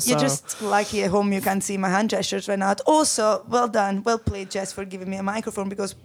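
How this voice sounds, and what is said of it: Italian accent. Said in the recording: “from my accent, but I am Italian”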